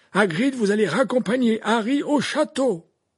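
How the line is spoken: Firm, commanding. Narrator (French): répéta Dumbledore d'un ton sans réplique

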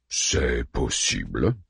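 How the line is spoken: Grumbling man. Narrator (French): grommela l'ionien

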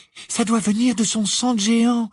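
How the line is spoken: Trembling voice. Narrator (French): expliqua Hermione d'une voix tremblante

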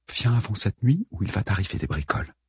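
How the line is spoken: Murmured. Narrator (French): murmura-t-elle

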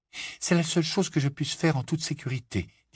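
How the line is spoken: Trembling voice. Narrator (French): dit Hermione d'une voix tremblante

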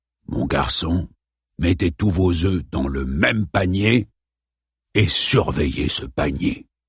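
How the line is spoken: Murmured. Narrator (French): murmura Clemens

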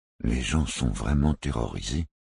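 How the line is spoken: Murmured. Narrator (French): murmura Tixou

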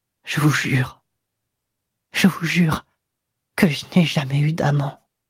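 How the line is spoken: Broken whisper in ear. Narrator (French): elle lui murmura à l'oreille, d'une voix brisée

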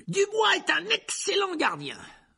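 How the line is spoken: Commenting. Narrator (French): commenta Lee Jordan

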